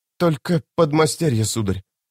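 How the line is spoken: Hesitant, slightly trembling voice. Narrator (Russian): на миг замешкавшись, ответила женщина чуть дрогнувшим голосом

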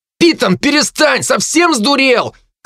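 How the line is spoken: Frightened shout from above. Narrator (Russian): крикнули откуда-то сверху испуганным голосом Дарта

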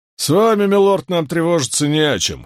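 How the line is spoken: Chuckle. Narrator (Russian): хохотнул Тед

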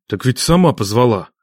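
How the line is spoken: Breathless exhale, in pain. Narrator (Russian): выдохнул Нечай, сжимая ладонью растревоженный бок

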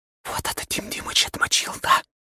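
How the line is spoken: Whisper in the ear. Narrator (Russian): шепнула мне на ухо Аня

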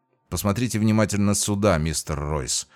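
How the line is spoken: Sighing. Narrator (Russian): вздохнул я

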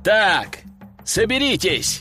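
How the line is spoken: Shouted command. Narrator (Russian): крикнул им

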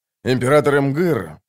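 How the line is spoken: Calm. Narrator (Russian): спокойно сказал Ходспорн

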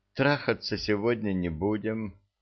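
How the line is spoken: Sad, theatrical pause. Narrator (Russian): повторила Татьяна, потом выдержала солидную, по-актерски эффектную паузу и грустно сообщила

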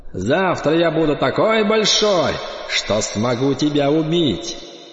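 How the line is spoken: Snide shout. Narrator (Russian): Кайон ехидно прокричал

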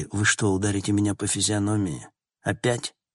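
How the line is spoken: Sighing. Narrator (Russian): Логан вздохнул

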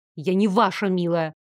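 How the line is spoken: Snapping. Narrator (Russian): огрызнулась я

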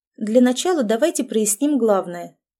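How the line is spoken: Businesslike tone. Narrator (Russian): деловым тоном сказала я

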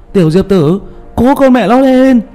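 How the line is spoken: Loud cupped-hands shout. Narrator (Vietnamese): Tiểu Mã hai tay trộm trộm lại để trên miệng hét lớn

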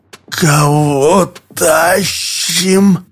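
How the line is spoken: Strained. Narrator (Russian): выдавил Олег

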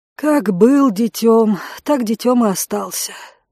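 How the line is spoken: Sighing, resigned. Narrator (Russian): вздохнула кухарка

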